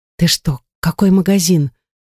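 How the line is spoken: Whispered reply. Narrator (Russian): шепотом ответила она

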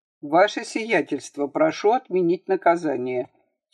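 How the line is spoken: Quiet and calm. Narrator (Russian): тихо и спокойно произнес Семен Емельянович

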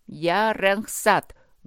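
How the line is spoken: Loud and hoarse. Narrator (Russian): громко и хрипло проговорили его губы

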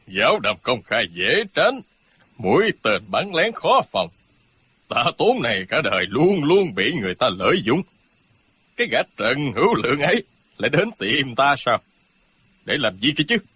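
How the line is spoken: Sneering. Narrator (Vietnamese): Tạ Tốn cười khẩy nói

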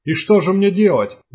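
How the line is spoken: Monstrous shout. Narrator (Russian): закричал дезертир монстром

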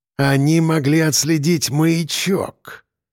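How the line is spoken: Strained, forced out. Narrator (Russian): выдавил

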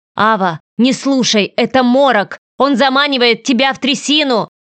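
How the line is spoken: Shouted from behind. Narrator (Russian): крикнул голос за спиной

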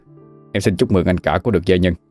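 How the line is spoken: Cold reply. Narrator (Vietnamese): Kim Kha lấy lại sự lạnh lùng, đáp

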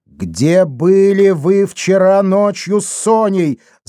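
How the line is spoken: Yelled. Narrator (Russian): заорал Демба

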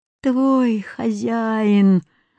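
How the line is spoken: Camel's groan. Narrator (Russian): застонал верблюд

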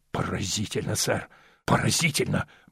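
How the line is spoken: Muttering king. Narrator (Russian): бормотал король Скукумбенча

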